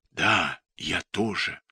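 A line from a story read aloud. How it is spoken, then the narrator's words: Wary whisper. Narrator (Russian): Он настороженным шепотом отвечает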